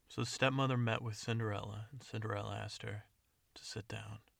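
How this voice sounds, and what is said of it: Serious gritty action-movie voice. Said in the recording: “my action, serious voice. ... I have a spot of a cold, I believe, which adds an extra grittiness.”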